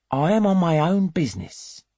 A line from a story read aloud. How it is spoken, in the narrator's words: he says more gently